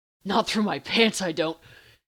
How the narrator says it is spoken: Dean growled

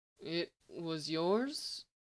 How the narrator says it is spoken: Lex asked weakly

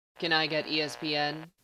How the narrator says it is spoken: Corbin asked in his flat voice

